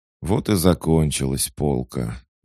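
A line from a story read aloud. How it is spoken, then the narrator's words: Sighed. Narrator (Russian): вздохнул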